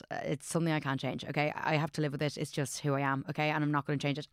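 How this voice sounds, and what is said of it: Posh English accent. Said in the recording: “I'm so posh. Everyone's like, you're so posh. I obviously have a posh accent. ... I'm often told I sound really posh.”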